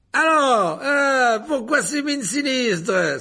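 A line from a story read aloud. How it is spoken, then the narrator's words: Cheerful beaming exclamation. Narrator (French): s'écria-t-il en adressant à la classe un sourire rayonnant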